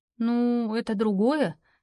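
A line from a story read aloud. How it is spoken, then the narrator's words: Hesitant drawl. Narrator (Russian): неуверенно тянет Мира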